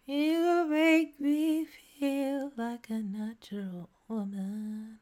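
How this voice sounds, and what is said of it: Sung imitation of another person's voice. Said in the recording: “my Tom York impression ... I nailed it”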